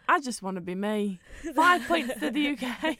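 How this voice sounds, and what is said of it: Bad imitation of another person's accent. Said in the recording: “That's a really bad accent ... that is shocking”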